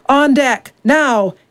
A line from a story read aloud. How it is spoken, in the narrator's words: he bellowed